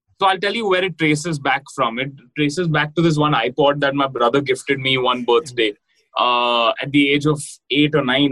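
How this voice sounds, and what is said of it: Indian English accent. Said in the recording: “in your accent, when you speak English, we can hear your Indianness”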